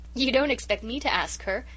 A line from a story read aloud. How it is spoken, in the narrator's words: giggled Amy McAllister